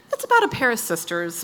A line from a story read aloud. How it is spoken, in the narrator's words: Max offered calmly